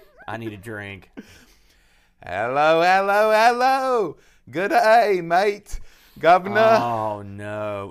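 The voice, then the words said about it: Mixed Australian and British accent. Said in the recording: “worst foreign accent ... I am the master of the foreign accent ... Australian or ... British?”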